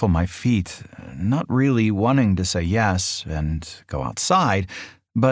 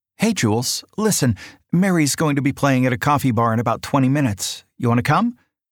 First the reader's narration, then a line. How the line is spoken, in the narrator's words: she says excitedly